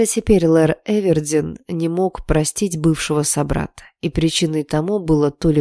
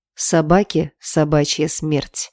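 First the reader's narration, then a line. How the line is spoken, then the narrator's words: Growling boss. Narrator (Russian): прорычал мой начальник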